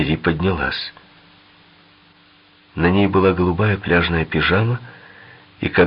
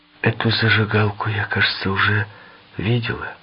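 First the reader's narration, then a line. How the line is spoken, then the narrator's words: Uncertain. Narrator (Russian): неуверенно проговорила Валерия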